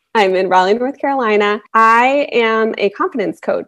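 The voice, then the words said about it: American accent. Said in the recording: “I actually live in the US, if you can't tell from my accent.”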